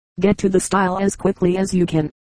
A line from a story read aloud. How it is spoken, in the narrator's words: George called to them